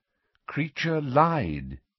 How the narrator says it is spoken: said Dumbledore calmly

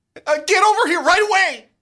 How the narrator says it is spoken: You scream into the phone

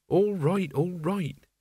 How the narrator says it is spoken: he said, as soothingly as he could manage

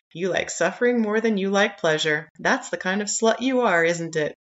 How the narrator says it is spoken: sigh

